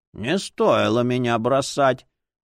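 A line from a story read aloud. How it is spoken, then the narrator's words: Indignant old voice. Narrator (Russian): возмутилась книга старческим голосом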